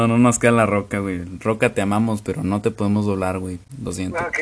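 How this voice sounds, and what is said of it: Usual voice. Nothing is said of it.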